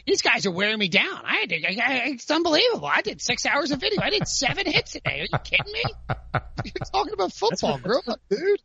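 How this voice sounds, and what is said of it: Complaining impression of Pete Prisco. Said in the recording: “just do your Pete Prisco complaining. Just do your impression of him because it's a fantastic. ... That's pretty good. ... That's really good.”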